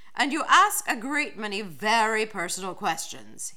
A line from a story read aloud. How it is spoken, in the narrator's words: added sternly